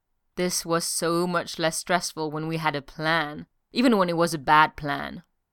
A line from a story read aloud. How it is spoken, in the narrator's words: Steve groaned